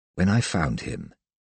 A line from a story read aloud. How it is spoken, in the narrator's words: continued, his words a bare whisper